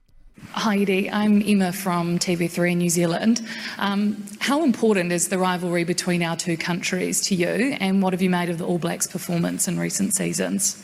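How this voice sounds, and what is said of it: New Zealand accent. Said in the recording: “a bit hard to understand ... New Zealand accent”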